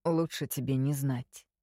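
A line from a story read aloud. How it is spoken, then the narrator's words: Grim reply. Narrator (Russian): мрачно ответила темнота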